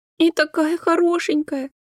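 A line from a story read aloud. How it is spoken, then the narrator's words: Sobbing. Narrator (Russian): всхлипнула Рая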